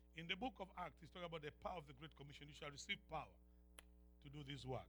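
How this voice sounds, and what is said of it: Speaker's own accent, fast. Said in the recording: “I don't know if that was too fast for you with my accent.”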